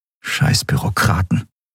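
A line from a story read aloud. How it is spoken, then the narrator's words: Whispering. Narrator (German): flüsterte Endriel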